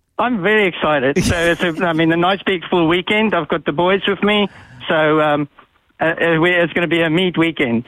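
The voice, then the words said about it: South African accent. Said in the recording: “What's the accent that we can detect there? ... That is 11 generations of South Africans.”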